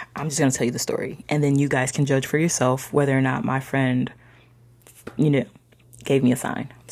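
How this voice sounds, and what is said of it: Choked-up, emotional voice. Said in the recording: “I'm getting all choked up.”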